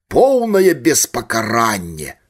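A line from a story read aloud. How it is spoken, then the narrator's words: Loud, tipsy. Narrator (Belarusian): гучна паўтарыў падпіты Самусенка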